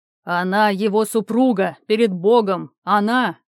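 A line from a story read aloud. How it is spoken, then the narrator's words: Barked. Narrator (Russian): рявкнул он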